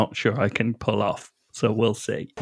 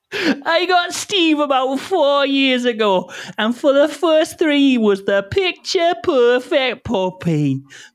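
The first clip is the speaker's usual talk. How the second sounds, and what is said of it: Put-on accent. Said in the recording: “I've already forgotten how to do this accent.”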